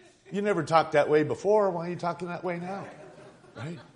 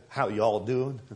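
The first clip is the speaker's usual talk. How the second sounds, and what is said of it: Put-on Southern US accent. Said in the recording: “we got a Southern Baptist accent.”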